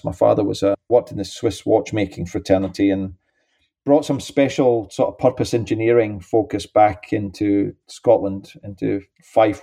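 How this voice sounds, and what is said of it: Scottish accent. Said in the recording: “clearly my accent, I was born in St. Andrews”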